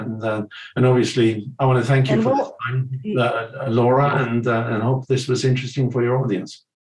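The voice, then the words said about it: Swedish-accented English. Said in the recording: “my husband is Swedish ... hearing your accent makes me feel comfortable like I'm back with his family”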